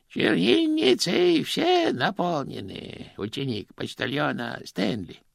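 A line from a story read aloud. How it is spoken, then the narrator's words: Sing-song. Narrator (Russian): нараспев произнес он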